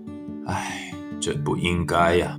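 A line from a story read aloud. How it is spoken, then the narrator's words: Heavy-hearted low muttering. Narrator (Chinese): 渔夫的心情很沉重，他低声自言自语的说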